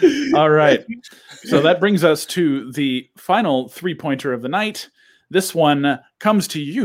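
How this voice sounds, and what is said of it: Usual voice. Nothing is said of it.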